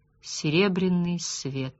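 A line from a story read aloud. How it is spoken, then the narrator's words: Quiet. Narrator (Russian): тихонько проговорил Габриэль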